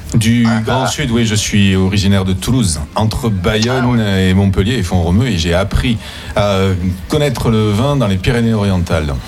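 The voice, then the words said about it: Southern French accent. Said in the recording (French): “Autre accent du Sud également, peut-être pas de Montpellier”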